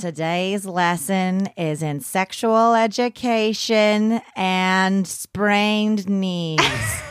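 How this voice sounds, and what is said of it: Imitates a health teacher. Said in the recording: “my best health teacher impression. ... I wasn't confident about it”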